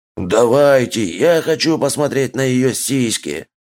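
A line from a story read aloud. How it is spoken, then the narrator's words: Growled. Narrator (Russian): снова зарычал орк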